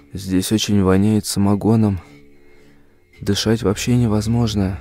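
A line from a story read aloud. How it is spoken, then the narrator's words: Whisper. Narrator (Russian): Он прошептал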